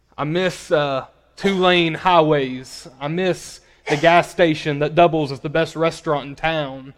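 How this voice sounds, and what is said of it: Arkansas accent. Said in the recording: “I don't know if you can tell from my accent or not. I'm originally from a small town called Paragould, Arkansas”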